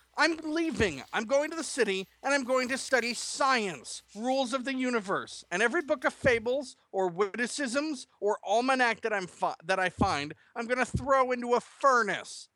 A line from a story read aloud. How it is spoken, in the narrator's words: he shouted as he stormed off